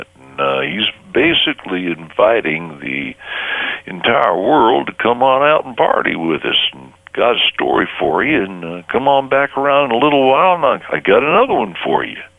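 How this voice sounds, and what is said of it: Low-pitched Western-accented character voice. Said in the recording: “Vegas Vic kind of talks down here like this. It's not really a Southern accent, mind you. It's more of a Western accent.”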